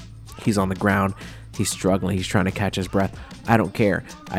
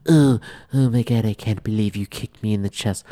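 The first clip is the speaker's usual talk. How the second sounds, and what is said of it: Imitates another person's voice. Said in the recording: “That's how Donald Trump sounds. That's my impression”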